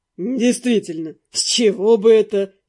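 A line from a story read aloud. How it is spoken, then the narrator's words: Laughing. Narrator (Russian): рассмеялся Дэн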